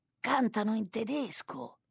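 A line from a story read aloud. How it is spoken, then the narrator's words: Cook murmuring. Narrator (Italian): mormora il cuoco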